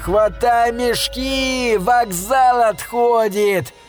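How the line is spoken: Wild frantic yell. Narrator (Russian): Дурным голосом закричал Алый

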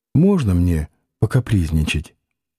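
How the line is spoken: Quiet weak smiling question. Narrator (Russian): улыбаясь обескровленными губами, спросила тихонько

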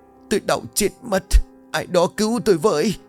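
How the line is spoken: Frantic screaming in agony. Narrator (Vietnamese): Cơn đau khủng khiếp làm ánh mắt của bà trở nên man dại, miệng vẫn không ngừng gào thét

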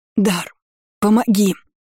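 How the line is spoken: Weak hoarse wheeze. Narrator (Russian): Просипела, прежде чем потерять сознание

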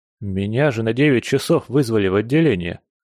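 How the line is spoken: Dejected voice. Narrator (Russian): упавшим голосом сказал

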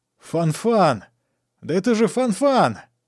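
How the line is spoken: Joyful shout. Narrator (Russian): радостно закричал Сорвиголова

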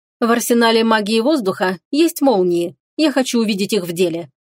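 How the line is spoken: Cold. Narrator (Russian): холодно сказала леди Ивари

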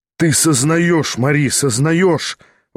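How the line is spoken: Exclaimed. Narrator (Russian): воскликнул Шатов

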